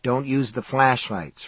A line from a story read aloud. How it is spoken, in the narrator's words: Ralph said